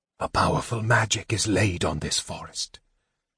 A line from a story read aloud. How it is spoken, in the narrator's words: the mage whispered weakly